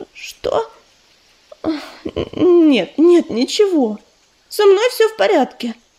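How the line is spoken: Faltering babble, female. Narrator (Russian): пролепетала Листочка

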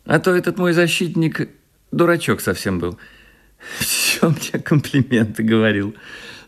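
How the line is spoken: Said, then laughed. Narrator (Russian): сказала она и засмеялась

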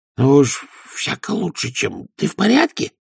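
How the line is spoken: Hissed reply. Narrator (Russian): прошипел в ответ Овс

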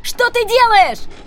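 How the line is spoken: Shout. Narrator (Russian): закричала Рианон

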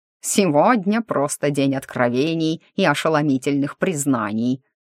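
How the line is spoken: Snorting. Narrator (Russian): фыркнул Афанасий

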